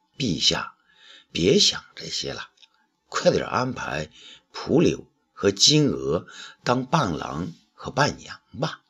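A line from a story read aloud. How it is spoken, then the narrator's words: Gentle coaxing. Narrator (Chinese): 温柔的劝说武帝道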